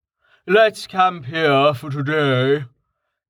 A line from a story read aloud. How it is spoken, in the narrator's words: Jameis said, yawning